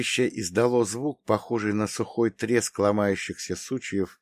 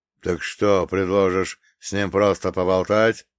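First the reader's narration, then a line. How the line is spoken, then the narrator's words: Growling. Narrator (Russian): зарычал Белиал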